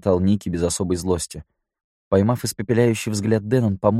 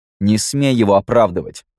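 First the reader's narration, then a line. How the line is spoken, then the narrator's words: Angry. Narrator (Russian): зло бросил Мэтт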